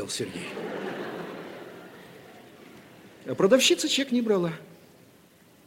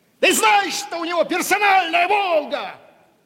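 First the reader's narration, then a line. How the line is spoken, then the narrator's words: Shouting. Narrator (Russian): Кричал Рашпиль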